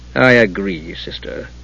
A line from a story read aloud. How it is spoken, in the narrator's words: he said with a bitter sigh